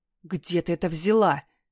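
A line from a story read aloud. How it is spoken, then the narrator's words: Angry, through gritted teeth. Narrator (Russian): Покраснев от злости, цедит сквозь зубы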